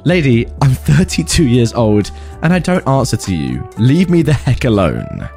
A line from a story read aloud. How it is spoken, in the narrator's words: I laughed and said